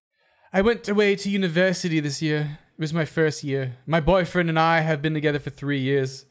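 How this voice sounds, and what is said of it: Poor put-on British accent. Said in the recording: “Is this your British accent? ... It's horrible. ... It's worse than mine.”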